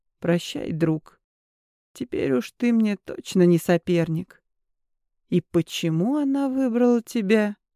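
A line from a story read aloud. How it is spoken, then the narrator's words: Quiet. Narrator (Russian): тихо произнес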